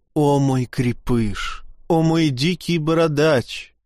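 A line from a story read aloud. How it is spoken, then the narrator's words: Moaning woman. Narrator (Russian): стонала леди Мюриэль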